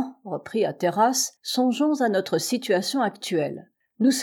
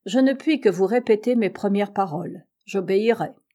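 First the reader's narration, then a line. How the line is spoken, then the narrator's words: Cold reply. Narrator (French): répondit froidement Shandon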